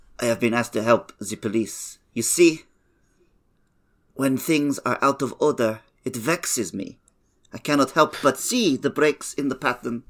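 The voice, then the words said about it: Poirot accent that keeps slipping. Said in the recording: “It's the accent. It keeps kind of breaking. ... The key to Poirot.”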